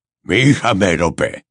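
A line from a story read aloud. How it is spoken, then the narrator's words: Muttering. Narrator (Spanish): masculló Gunt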